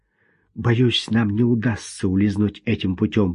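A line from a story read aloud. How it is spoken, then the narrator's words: Whisper into ear. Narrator (Russian): прошептал он ей в ухо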